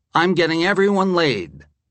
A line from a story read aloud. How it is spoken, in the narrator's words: exclaimed